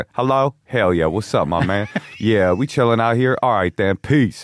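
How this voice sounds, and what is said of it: Put-on Southern Black American accent. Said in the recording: “I had a Southern accent ... Was it a Southern black accent? ... Oh yeah, it was a Southern black accent.”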